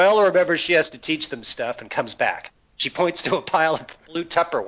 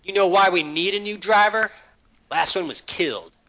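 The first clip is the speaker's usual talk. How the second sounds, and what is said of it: Imitates another person's voice. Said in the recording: “my Viola impression”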